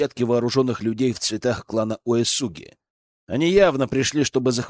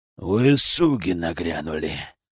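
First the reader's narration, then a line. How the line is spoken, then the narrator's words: Growl while fighting. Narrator (Russian): прорычал Кэтсу, отбиваясь сразу от нескольких противников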